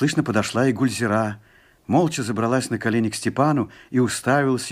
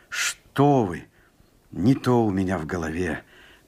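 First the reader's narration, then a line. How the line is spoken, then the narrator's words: Moved, embarrassed mumble. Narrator (Russian): пробормотал Степан, растроганный и смущенный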